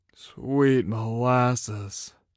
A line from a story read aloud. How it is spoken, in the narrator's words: said weakly